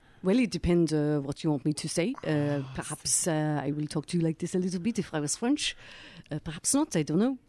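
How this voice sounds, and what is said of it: Put-on French accent. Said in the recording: “give us a bit of the French ... Yeah, I think that's pretty good ... If anyone out there has a French accent, please don't call in and tell me how awful that was.”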